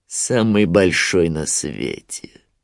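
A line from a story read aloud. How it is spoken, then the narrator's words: Grim smirk. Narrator (Russian): мрачно ухмыльнулся Шрам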